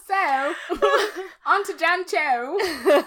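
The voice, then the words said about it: Bad attempt at Cockney accent. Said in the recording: “You have to do the rest of the podcast with Cockney accent. ... God, this is fucking terrible. I can't do it.”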